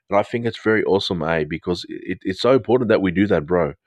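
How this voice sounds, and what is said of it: New Zealand accent. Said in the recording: “I'm sorry about my New Zealand accent. It sometimes just drops into a New Zealand accent, even though I'm English.”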